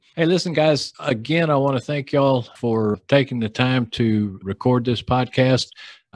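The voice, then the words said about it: Texas Southern accent. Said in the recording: “my Texas Southern accent”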